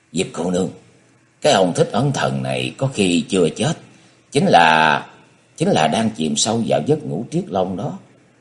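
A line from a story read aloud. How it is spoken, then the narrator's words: Quiet, low voice. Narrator (Vietnamese): Hắn nhỏ giọng nói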